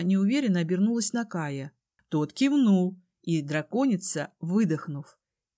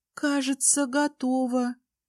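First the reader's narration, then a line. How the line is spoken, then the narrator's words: Uncertain. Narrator (Russian): неуверенно кивнула Тали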